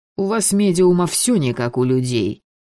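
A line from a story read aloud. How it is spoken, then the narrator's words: Grumble. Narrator (Russian): проворчал гадалец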